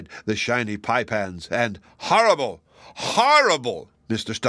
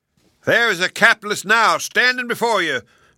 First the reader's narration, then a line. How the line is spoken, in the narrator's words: shouted Mr